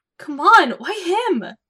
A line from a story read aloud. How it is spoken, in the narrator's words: She exclaimed